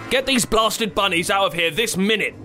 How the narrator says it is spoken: the wizard shouted, going quite pink in the face

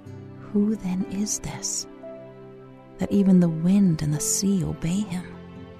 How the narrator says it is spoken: you can hear a disciple whisper to another

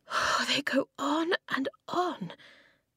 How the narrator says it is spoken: Eska panted

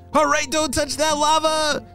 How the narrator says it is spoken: shouted Ben

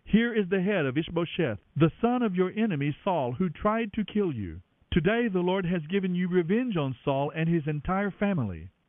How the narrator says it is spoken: they exclaimed

